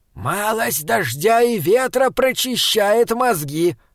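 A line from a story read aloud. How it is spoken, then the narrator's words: Shouted. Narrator (Russian): крикнул Таузер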